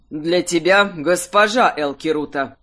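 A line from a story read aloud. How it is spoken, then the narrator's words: Cold correction. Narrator (Russian): Холодно поправил воспитанника Гвонг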